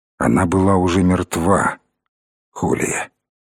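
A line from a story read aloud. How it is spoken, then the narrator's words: Quiet. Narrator (Russian): тихо проговорил он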